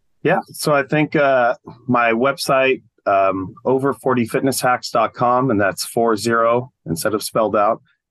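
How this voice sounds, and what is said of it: Hoarse, strained, failing voice. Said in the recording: “I'm losing my voice here.”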